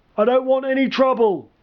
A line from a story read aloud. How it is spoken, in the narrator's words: the man called out